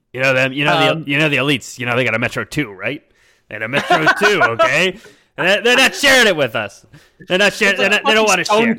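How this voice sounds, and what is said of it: Alex Jones impression. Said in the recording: “my impersonation of Alex Jones is the same as my impersonation of Obama”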